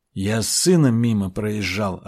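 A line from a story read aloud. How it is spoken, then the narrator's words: Plain. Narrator (Russian): ответил богатырь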